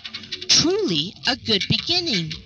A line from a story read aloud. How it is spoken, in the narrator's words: exclaimed with enthusiasm